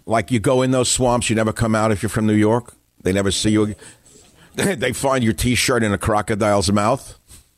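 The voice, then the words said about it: New York accent. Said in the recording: “the New York accent, which I, of course, exemplify”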